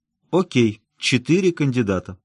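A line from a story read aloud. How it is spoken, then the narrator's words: Sighing. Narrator (Russian): вздохнул Килрой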